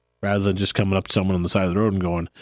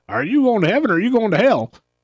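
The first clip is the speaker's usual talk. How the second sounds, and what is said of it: Put-on Southern accent. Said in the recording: “I'm not sure why that has a southern accent”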